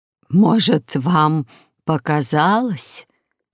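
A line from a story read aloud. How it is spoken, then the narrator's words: Hoarse question. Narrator (Russian): хрипло спросила Агнес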